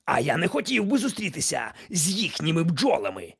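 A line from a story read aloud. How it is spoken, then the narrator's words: Shout. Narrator (Ukrainian): крикнув містер Вудчестер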